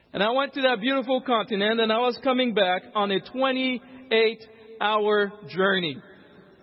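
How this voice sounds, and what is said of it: African accent. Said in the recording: “If you could tell that I have an accent, that's because I am an African.”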